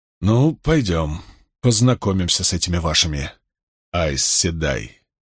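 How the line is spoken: Hoarse. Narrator (Russian): хрипло сказал он госпоже Алвир

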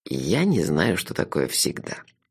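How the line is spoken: Soft, gentle. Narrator (Russian): мягко сказал человек в кепке

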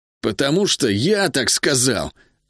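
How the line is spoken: Irritated reply. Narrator (Russian): раздраженно ответил Хьюго

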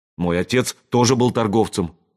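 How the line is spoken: Angry. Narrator (Russian): ответил Ричард зло

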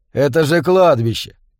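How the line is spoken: Tense laugh. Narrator (Russian): напряженно хохотнул Солли

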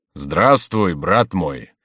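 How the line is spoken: Solemn voice. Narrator (Russian): сказал Гуранфло торжественным голосом

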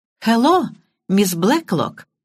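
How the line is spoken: Beaming exclamation. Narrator (Russian): лучезарно улыбаясь, воскликнула Банч

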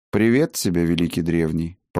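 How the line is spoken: Calm. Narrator (Russian): проговорил тот спокойно

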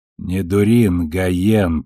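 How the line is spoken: Through gritted teeth. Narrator (Russian): процедила Авасарала

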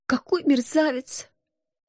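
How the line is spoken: Quiet sob. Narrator (Russian): тихо всхлипнула я

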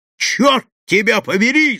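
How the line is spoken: Shouted. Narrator (Russian): закричал

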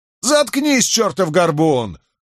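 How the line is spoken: Wounded man roaring. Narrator (Russian): взревел повстанец, раненый в руку

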